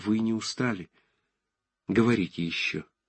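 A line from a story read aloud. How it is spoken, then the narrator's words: Timid. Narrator (Russian): Ромашов сказал робко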